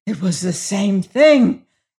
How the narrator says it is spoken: gasped the prisoner

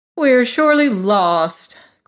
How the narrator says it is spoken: cried Ginger in despair

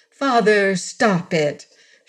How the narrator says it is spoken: exclaimed

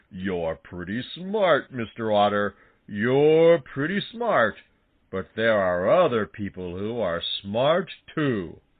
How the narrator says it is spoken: said Buster Bear, and still chuckling

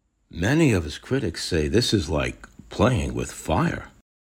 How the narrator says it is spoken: his assistant, under her breath, says

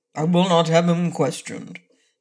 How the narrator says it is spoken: declared the king in a surly voice

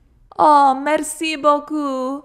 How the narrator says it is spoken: she exclaimed

